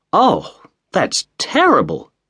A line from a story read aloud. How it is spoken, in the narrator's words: cried Mrs